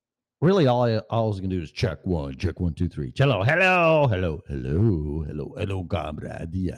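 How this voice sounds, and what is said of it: Usual voice. Nothing is said of it.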